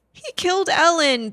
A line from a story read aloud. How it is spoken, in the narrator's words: the ghost boy sobbed